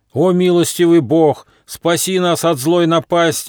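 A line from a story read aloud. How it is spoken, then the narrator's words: Monks praying loudly. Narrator (Russian): громко взмолились монахи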